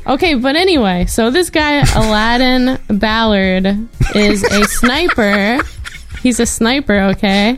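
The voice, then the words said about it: New York accent. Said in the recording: “I inherently have like a New York accent. So I'll say water.”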